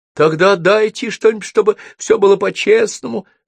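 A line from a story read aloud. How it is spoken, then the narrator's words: Sobbing boy. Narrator (Russian): всхлипнул паренек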